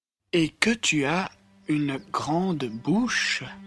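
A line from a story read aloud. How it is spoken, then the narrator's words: Little girl's faint murmur. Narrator (French): murmura la petite fille d'une voix faible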